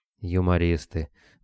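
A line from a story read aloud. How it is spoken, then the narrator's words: Gloomy. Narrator (Russian): мрачно отозвался Саня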